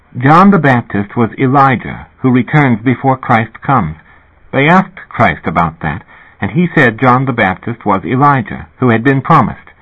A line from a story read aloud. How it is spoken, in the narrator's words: she now said calmly